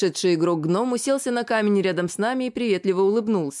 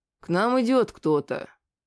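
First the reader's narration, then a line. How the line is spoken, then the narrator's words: Muttering into beard. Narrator (Russian): проворчал Тру в бороду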